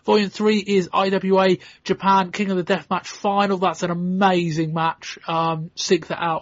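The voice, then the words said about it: Strained, failing hoarse voice. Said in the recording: “My voice is just about to go”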